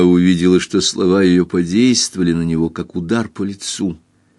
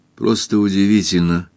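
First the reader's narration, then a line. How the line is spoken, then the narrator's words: Quiet. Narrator (Russian): тихо сказал он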